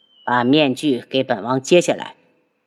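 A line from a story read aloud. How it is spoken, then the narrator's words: Cold voice. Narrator (Chinese): 轩辕志冷声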